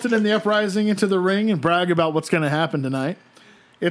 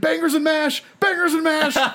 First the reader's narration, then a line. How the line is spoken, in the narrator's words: starts screaming